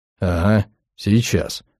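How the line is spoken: Grumbled. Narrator (Russian): проворчал Килли

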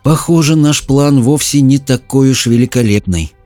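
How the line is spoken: Sad. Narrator (Russian): грустно произнесла Мэлори

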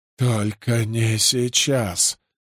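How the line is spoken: Wheezed. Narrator (Russian): прохрипел Симай

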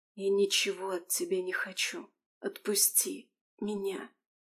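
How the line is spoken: Exhausted whisper. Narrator (Russian): Из последних сил прошептала Алисия

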